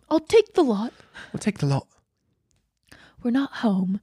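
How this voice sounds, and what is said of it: Put-on English accent. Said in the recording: “My subconscious speaks in an English accent.”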